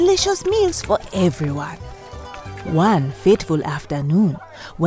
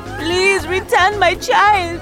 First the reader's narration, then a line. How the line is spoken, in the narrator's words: begged